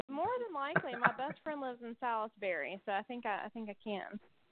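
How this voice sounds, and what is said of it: American Southern accent. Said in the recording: “I'm trying not to talk too southern. ... I can interpret the southern dialect.”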